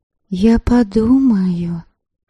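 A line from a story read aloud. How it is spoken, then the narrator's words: Soft. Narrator (Russian): мягко сказала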